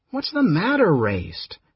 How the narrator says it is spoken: Caramon asked uneasily

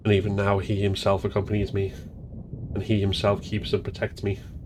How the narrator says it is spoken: recited under his breath

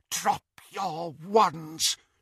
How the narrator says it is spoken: she whispered

